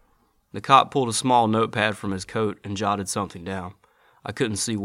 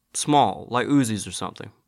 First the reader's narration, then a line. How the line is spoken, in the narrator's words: I said